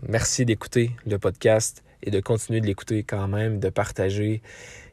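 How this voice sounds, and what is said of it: Québécois French accent. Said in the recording (French): “venant d'un Québécois ... malgré mon accent.”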